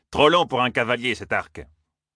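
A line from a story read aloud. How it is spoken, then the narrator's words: Sneered. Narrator (French): ricana Massema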